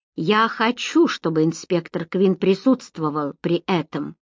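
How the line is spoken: Old woman, high clear voice. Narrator (Russian): ответила старуха высоким и чистым голосом

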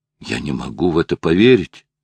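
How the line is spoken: Exclamation. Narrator (Russian): воскликнул Филипп

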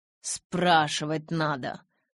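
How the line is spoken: Growled through clenched teeth. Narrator (Russian): сквозь зубы прорычал Эдвард

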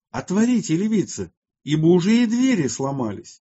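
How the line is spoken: Crowd shouting in fear. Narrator (Russian): Весь народ в страхе кричал

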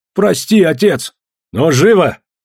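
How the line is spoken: Sharp shout. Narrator (Russian): прикрикнул на них Федор

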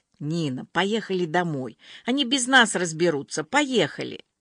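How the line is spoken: Resigned sigh, whisper. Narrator (Russian): обреченно вздохнув, принялся шептать

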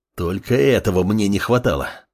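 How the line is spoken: Growl. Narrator (Russian): рыкнул подмастерье

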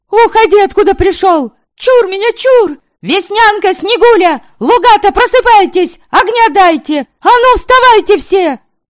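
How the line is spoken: Full-voiced shouting. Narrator (Russian): Она кричала во весь голос

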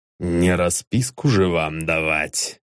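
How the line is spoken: Irritated declaration. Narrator (Russian): раздраженно заявил Гурович

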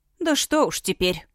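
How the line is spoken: Cook's resigned sigh. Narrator (Russian): обреченно вздохнула кухарка

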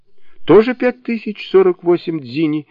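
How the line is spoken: Laughing reply. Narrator (Russian): смеясь ответил Шассен

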